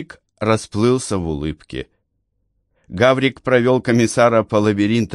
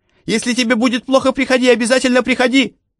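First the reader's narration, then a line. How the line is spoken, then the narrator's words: Shout calling after. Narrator (Russian): крикнул ему вслед Гаврик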